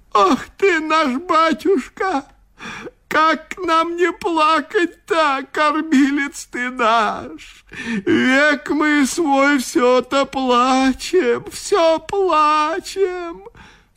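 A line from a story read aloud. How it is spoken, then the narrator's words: Old woman sobbing. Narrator (Russian): всхлипывала в ответ старуха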